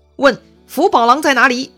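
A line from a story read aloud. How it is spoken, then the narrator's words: Group shouting. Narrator (Chinese): 他们大喊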